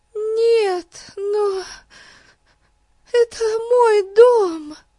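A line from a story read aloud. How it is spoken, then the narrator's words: Sobbing. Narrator (Russian): рыдала Хиллари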